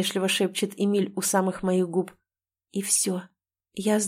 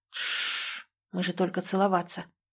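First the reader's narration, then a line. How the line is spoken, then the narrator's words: Flustered mumble. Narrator (Russian): сбивчиво бормочет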